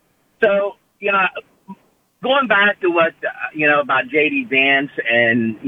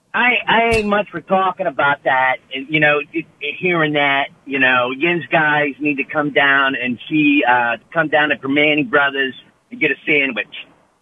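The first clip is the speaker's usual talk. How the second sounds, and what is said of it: Put-on Pittsburgh accent. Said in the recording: “Can you do a Pittsburgh accent for me? ... that sounds about right”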